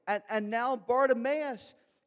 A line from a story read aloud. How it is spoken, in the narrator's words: he yells so loudly that the crowd's actually annoyed